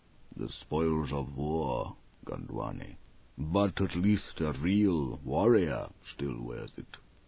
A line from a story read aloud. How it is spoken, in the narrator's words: Abelie said softly